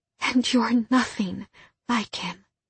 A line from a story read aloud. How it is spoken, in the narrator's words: she whispered